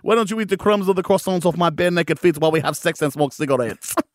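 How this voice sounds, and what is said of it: Put-on accent, attempted French, unconvincing. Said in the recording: “impersonating like a French couple ... I don't know what accent I did then ... It wasn't French ... which country I did”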